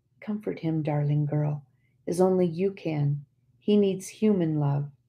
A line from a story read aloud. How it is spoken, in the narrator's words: tenderly, I whispered